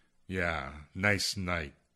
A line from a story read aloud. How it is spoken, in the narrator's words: Gleason mumbled